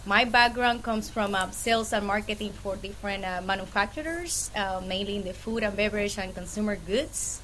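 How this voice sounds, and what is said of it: Puerto Rican accent. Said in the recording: “this awesome accent is a Puerto Rican accent.”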